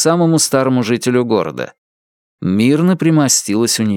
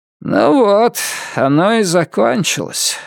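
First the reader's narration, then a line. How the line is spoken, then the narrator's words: Smoky raspy voice. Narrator (Russian): сказала тетя Эви прокуренным голосом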